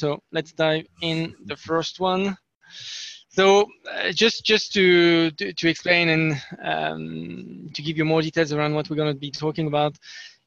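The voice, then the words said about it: Speaks English with a noticeable accent. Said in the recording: “wasn't sure everybody would understand my my accent”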